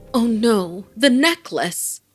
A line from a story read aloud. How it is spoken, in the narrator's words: Farah exclaimed